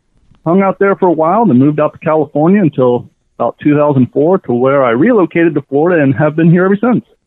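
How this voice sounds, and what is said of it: Kentucky accent. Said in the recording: “I grew up in the hills of Kentucky ... Didn't lose the accent.”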